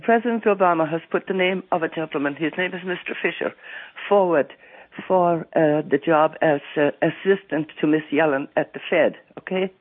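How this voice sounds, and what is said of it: Stuffy, congested voice. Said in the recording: “I have a bad cold.”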